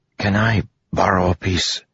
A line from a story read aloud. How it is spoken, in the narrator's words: He whispered sheepishly to Melody